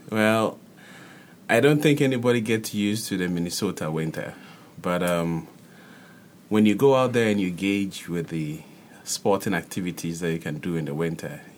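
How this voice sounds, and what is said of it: Foreign accent. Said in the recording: “I like your accent.”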